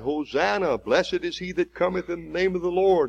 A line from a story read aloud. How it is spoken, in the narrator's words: this is the same crowd that just a week before cried